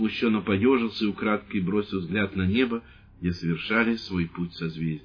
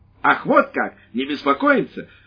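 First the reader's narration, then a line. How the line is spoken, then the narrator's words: Exclaiming. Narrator (Russian): воскликнула женщина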